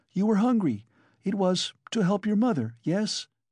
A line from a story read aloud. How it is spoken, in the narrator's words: Sonya stood as though struck dumb, but suddenly she cried